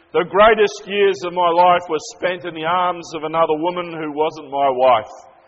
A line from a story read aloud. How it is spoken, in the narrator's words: he said loudly